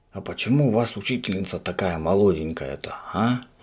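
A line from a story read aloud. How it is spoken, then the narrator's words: Whispered question. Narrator (Russian): шепотом спросил Субастику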